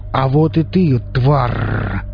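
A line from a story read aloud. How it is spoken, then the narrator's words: Angry growl. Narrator (Russian): злобно зарычал Велес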